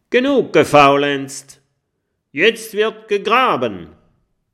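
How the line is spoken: Calling out. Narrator (German): Und der schlimme Jim ruft

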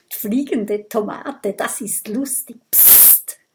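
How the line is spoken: Hushed murmur. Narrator (German): raunt Mathilda

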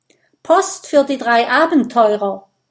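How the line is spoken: Calls out. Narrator (German): ruft

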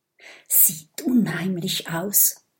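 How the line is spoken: Whispered. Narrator (German): flüstert Mathilda

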